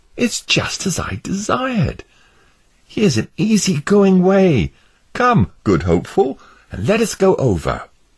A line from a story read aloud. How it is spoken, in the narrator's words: Christian exclaimed